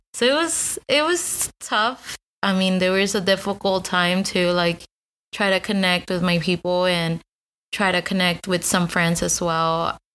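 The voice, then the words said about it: Spanish-accented English. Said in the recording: “As you can hear, I have an accent just because Spanish was my first language”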